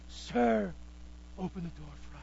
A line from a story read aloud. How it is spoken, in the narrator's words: And sinners are going to be on the outside of that door knocking and pleading